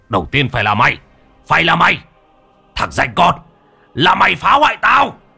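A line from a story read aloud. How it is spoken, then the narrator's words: Furious shout. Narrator (Vietnamese): Tuấn Bạc lúc này lao tới chỗ Khanh mà hét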